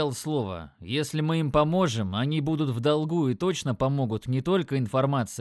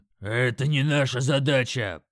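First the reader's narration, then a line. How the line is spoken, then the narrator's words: Orc's growl. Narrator (Russian): прорычал орк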